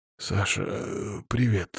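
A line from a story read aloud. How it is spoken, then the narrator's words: Hoarse, strained voice. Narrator (Russian): севшим голосом ответил он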